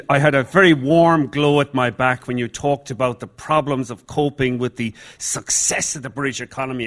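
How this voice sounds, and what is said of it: Irish accent. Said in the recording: “I'm Irish, though my accent may have given it away.”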